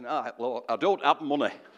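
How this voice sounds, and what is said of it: Imitated northern English accent. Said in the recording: “He would say that in a northern accent.”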